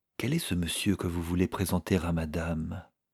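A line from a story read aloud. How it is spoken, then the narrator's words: Quiet question. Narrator (French): demanda à voix basse Lisabetta Ivanovna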